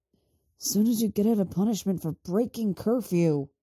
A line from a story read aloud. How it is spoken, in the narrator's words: he hisses